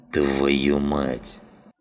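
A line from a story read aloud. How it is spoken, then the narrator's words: Grumbled. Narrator (Russian): Проворчал Жиган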